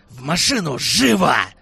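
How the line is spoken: Growled. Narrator (Russian): зарычал Славик

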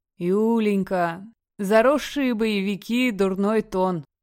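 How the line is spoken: Drawl. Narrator (Russian): Сукаризный протянул Гром

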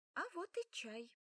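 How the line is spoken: Cheerful. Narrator (Russian): весело сообщила мама

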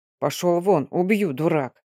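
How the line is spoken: Growl through teeth. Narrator (Russian): зарычал сквозь зубы Мордо

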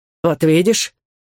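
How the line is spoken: Snort. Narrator (Russian): фыркнул

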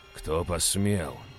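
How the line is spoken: Growling. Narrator (Russian): произнес я и зарычал

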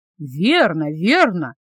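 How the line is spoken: Women chiming in together. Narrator (Russian): подхватили остальные дамы

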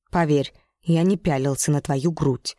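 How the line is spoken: Icy cold. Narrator (Russian): заявил он таким холодным тоном

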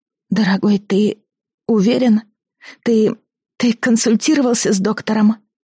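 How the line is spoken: Trembling voice, asking. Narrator (Russian): дрогнувшим голосом спросила Алиса

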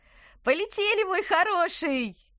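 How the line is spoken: Cheerful shout. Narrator (Russian): весело крикнула она

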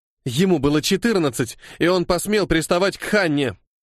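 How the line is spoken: Girl snapping back. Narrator (Russian): огрызнулась девочка

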